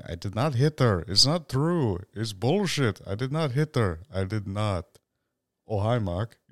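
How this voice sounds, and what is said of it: Imitates another person's weird accent. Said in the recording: “I'm not good at doing Wiseau's impression. He's got this really, really weird accent that I just cannot place ... a weird mix of French, German”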